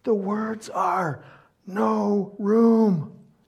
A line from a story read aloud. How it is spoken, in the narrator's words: the teacher whispers